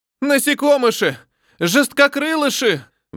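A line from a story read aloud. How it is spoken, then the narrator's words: Howling. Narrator (Russian): взвыло пространство вокруг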